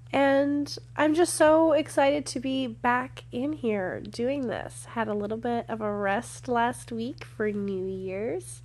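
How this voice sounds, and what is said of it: Nasal, congested voice. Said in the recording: “I've been sick and not in the fun way. So my voice is a little, like, I have a little bit of a nasally thing hanging out in my nose ... that's why I sound a little bit different.”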